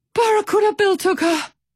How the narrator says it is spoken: Pip wheezed

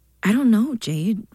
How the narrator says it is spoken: Ruby said

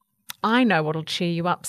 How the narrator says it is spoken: said Kuta

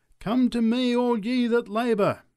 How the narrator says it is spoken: cried the preacher

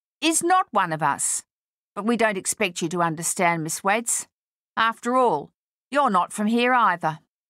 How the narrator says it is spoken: she said loudly

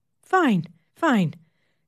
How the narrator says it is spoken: the nurse says, calmly

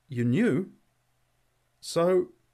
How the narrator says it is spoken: He stammered

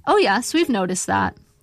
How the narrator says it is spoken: the nurse said

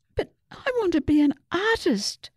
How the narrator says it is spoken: Susie wailed

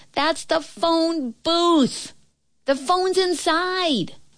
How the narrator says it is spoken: the girl's voice shouted

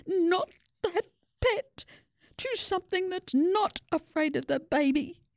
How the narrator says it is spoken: held their noses and gasped

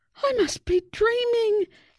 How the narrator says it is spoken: exclaimed Susie

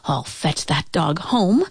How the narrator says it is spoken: she muttered

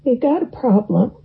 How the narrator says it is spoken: said

